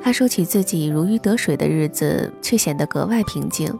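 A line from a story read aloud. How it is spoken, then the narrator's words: Calm, faint smile. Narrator (Chinese): 王爷淡淡一笑，接着说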